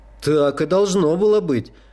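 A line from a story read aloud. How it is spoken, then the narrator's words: Exclaiming. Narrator (Russian): воскликнул Даль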